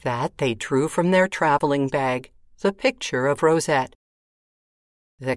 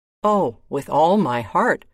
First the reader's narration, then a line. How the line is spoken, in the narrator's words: replied the king